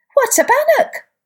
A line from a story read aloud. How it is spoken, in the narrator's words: all the baby bunnies piped up